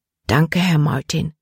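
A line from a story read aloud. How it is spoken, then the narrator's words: Quiet. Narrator (German): sagte sie leise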